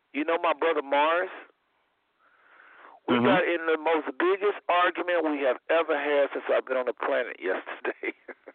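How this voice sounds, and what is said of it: Slightly hoarse voice. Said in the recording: “I'm hoarse, as you hear my voice. ... Y'all hear me hoarse? ... do I sound hoarse? ... Yeah, a little bit.”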